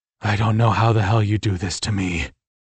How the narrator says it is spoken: I growled in her ear

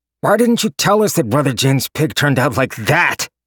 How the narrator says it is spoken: Gojen snarled

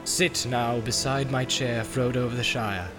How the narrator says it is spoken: said Celeborn

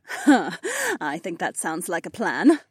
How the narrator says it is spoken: Cat laughed

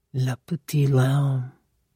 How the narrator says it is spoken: Coco said, her voice softening, her anger momentarily forgotten

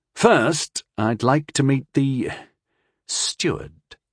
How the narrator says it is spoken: said coolly

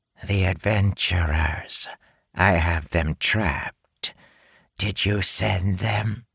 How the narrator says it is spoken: It hissed again

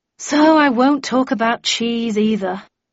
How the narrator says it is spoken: I sighed

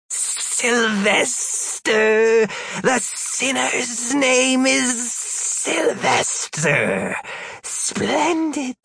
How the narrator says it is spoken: The other female, cackled

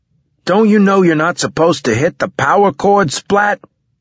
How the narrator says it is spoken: he shouted at me

